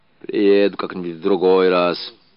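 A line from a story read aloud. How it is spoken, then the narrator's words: Old man, muffled. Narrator (Russian): глухо проговорил старик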